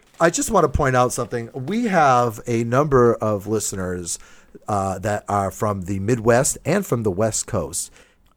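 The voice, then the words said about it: Speaks with a noticeable regional accent. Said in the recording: “It seems that my accent is a subject of topic ... oh, my God, your accent's like my favorite part of the show”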